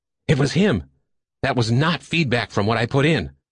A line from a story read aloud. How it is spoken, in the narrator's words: Frantically, Dillingsworth turned to those around him and said